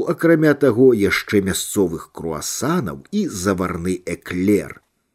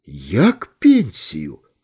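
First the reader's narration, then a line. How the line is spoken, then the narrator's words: Exclaimed. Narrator (Belarusian): усклікнуў Літаў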